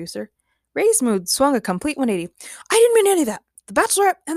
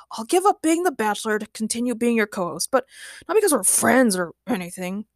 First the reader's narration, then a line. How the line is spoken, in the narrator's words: grumbled Ray